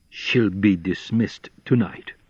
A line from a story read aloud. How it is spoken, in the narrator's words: said Mr